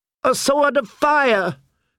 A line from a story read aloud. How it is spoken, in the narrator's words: shouted Queen Selyse